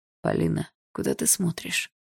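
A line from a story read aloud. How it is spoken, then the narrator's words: Strange-voiced question. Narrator (Russian): странным голосом спросил Барс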